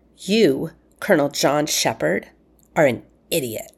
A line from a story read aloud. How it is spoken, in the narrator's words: she snarled